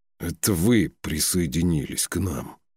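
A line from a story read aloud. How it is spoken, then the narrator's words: Quiet snort into beard. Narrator (Russian): тихо себе в бороду фыркнул Фюн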